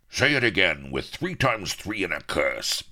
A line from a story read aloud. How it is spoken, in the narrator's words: bellowed Firebeard